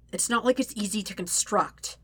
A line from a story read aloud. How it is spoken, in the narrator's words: Zuko snaps